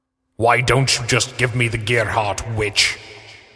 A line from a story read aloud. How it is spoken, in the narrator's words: Slade grunted under her weight